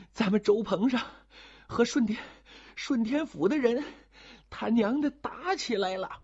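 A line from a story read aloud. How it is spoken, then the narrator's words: Exhausted, gasping for breath. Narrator (Chinese): 格叔累得翻白眼了，打张着嘴喘得上气不接下气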